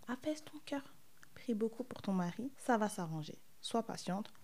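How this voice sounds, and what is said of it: Tired, slightly congested voice. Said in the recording (French): “je suis fatiguée et un peu enrhumée”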